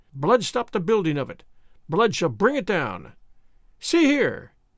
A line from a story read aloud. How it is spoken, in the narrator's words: she cried again